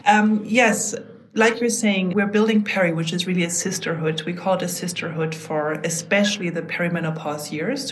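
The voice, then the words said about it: Slight German accent. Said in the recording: “I am originally German. That's why I have a little bit of an accent”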